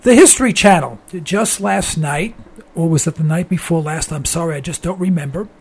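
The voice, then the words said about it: Hoarse, strained, failing voice. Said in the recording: “I'm losing my voice. ... what's wrong with my voice, and my throat hurts”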